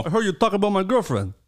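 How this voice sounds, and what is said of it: Put-on Persian accent. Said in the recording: “It's so weird that you have that accent for him. ... Persians have this like.”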